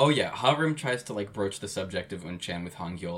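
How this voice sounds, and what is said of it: Usual voice. Nothing is said of it.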